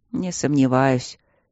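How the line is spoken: Wistful mutter. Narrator (Russian): пробормотал Майло, с тоской

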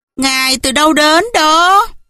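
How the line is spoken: Mocking maids' question. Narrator (Vietnamese): Bốn người tỳ nữ với giọng giễu cợt, họ hỏi

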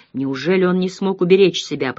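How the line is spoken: Mutter. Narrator (Russian): пробормотал Баринц

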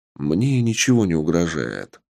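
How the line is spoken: Calm reply. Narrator (Russian): спокойно ответил босс

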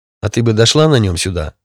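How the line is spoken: Angry snapping. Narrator (Russian): зло огрызнулся

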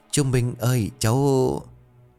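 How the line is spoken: Hesitant. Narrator (Vietnamese): Tôi ngập ngừng

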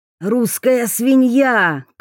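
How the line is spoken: Shout in Japanese. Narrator (Russian): крикнул он на японском

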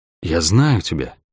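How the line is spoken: Whisper. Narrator (Russian): прошептал акробат

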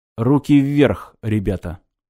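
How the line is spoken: Quiet voice from behind. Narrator (Russian): негромко раздалось сзади

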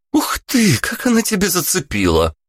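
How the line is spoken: Exclaimed. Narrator (Russian): Воскликнула Вика

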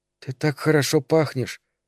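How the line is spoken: Whispered. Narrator (Russian): сказала шепотом

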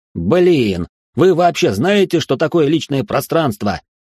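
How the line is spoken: Shouting. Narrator (Russian): прокричал Гордей

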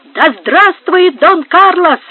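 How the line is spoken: Exclaimed. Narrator (Russian): воскликнул Пабло

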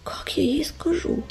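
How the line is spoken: Whisper. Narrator (Russian): прошептал он

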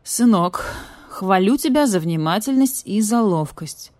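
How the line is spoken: Gloomy badger. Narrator (Russian): все так же мрачно сказал барсук

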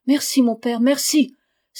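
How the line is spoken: Joyful exclamation. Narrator (French): s'écria Lucas, tout joyeux

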